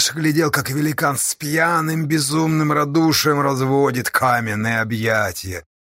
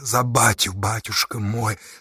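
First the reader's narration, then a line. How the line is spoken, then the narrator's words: Whispered. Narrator (Russian): зашептал он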